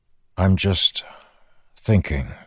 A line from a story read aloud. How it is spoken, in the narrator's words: he said, trying to keep his voice even